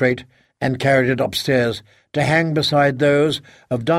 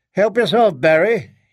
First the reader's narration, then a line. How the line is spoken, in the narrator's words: he called out